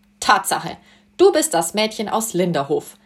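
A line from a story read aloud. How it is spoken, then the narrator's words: Cheerful laughing. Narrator (German): sagte er und lachte sie fröhlich an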